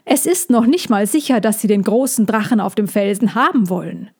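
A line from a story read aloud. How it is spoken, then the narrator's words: Called out. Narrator (German): rief er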